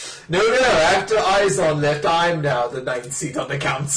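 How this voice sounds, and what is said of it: Usual voice. Nothing is said of it.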